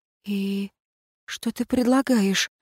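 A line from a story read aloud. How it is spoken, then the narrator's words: Choked near-whisper. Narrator (Russian): почти шепотом спросила я, чувствуя, как сдавливает горло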